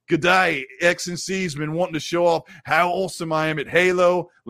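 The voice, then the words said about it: Bad put-on Australian accent. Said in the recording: “Horrible with my Australian accent.”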